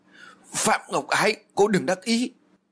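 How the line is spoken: Frenzied loud shout. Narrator (Vietnamese): Duyên điên cuồng mà hét lớn

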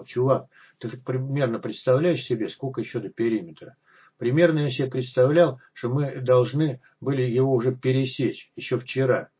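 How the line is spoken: Sigh, then whisper. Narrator (Russian): Аспирин вздохнул и шепотом сказал

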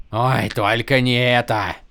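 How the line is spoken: Moaning. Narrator (Russian): простонал Лапен

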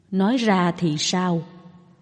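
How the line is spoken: Very gentle questioning. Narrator (Vietnamese): Phạm Già La vô cùng dịu dàng mà hỏi ngược lại

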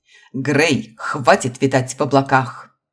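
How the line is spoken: Dragon's bark. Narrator (Russian): рявкнул дракон

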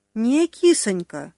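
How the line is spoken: Unexpectedly tender singsong, fat man. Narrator (Russian): неожиданно ласково пропел толстяк

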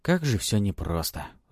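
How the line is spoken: Sigh, then smile. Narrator (Russian): вздохнул он и улыбнулся

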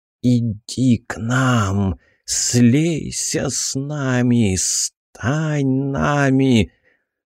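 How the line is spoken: Growing, clearer whisper. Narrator (Russian): Шепот становился все сильнее, все отчетливее

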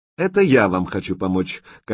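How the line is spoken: Flat, official voice. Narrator (Russian): казенным голосом пояснил Сочнев

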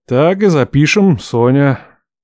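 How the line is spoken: Grumbling mutter. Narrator (Russian): бурчал он

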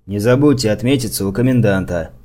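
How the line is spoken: Stern older man. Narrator (Russian): строго сказал дядька в ушанке и белом армейском каракулевом тулупе, бывший на посту за старшего

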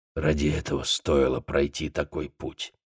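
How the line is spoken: Muttered. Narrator (Russian): пробормотал Сонни

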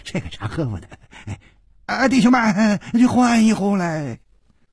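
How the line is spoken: Ingratiating, smiling. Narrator (Chinese): 那掌柜的愣了愣，还是陪着笑说

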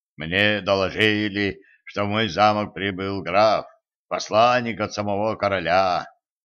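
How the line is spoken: Booming voice. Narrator (Russian): прогудел он

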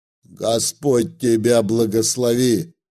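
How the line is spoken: Deep booming woman's voice. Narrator (Russian): как протодьякон пробасила попадья

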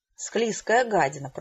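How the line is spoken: Muttered. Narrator (Russian): пробормотала Хэвишем

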